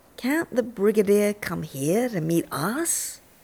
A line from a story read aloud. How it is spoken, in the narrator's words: sweetly asks